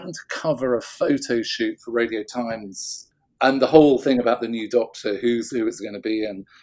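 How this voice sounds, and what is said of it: Usual voice. Nothing is said of it.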